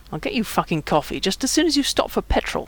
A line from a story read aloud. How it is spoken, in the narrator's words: Joey grumbled